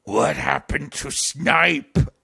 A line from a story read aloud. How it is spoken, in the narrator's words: I growled